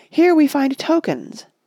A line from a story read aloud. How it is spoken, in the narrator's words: cried Aragorn